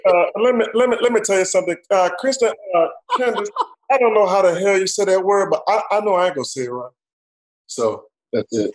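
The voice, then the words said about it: Impression of Charles. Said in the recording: “your Charles impersonation ... how would Chuck say asterisk? ... you close your eyes, you listen to that, you think we're talking to Charles.”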